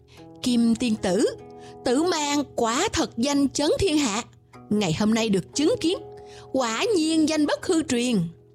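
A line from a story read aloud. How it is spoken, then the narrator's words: Smiling. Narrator (Vietnamese): Tần Vô Viêm mỉm cười nói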